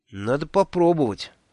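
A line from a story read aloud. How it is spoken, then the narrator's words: Sighing. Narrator (Russian): вздохнул я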